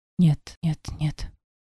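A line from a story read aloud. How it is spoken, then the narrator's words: Disbelieving whisper. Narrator (Russian): зашептала, отказываясь верить в то, что вижу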